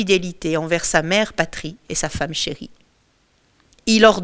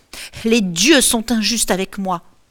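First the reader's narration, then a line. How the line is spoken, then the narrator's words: Shouted. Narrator (French): crie-t-elle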